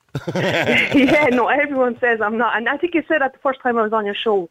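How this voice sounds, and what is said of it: Mild Irish accent. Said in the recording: “I'm trying to figure out where your accent comes from, but it's not Dundalk... more of a Mead accent... not really a load accent”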